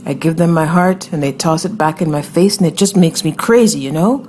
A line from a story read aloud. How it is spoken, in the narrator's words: The girl barked a panic question into the cell phone